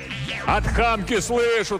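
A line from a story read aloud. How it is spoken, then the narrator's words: Yelled. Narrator (Russian): тоже заорал Иван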